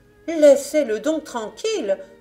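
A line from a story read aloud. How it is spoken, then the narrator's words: Indignant mother exclaiming. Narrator (French): s'écria la mère indignée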